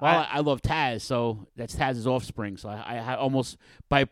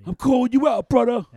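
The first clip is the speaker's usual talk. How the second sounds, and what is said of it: Imitates another person's voice. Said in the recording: “my Taz impression”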